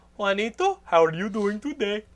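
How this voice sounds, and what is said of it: Imitates another person's accented voice. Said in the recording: “she still talks like ... she'd probably still have that fucking accent”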